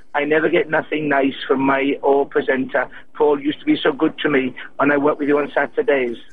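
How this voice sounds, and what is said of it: Put-on Welsh accent. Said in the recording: “Welsh tears, admittedly ... This is meant to be Welsh, not kind of any kind of East European accent.”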